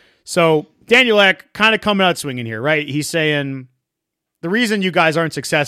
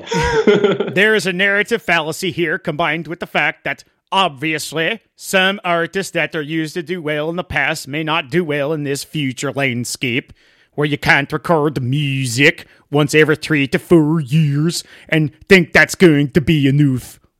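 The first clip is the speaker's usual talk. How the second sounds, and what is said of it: Imitation of Daniel Ek's accent. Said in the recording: “That's all I need to hear from Daniel Eck. I'm getting a little tired of that accent.”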